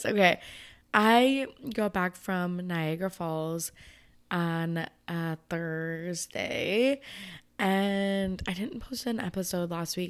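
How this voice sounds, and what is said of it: Slightly sultry low voice. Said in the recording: “My voice sounds fucking good. It's like a little sultry.”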